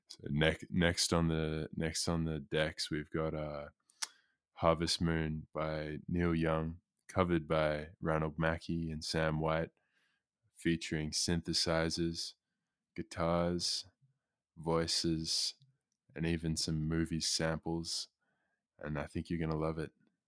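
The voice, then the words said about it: Radio announcer voice. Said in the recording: “I'm going to do this in my radio voice.”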